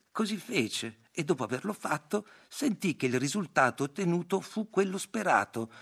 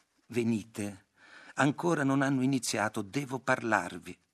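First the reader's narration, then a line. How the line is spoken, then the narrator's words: Plain. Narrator (Italian): disse la vedova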